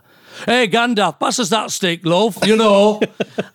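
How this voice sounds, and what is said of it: Broad put-on Yorkshire accent. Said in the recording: “the Leeds accent or Yorkshire accent ... It's very broad. ... And it's very broad.”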